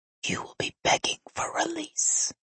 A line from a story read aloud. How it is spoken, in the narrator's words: he whispered for my ears only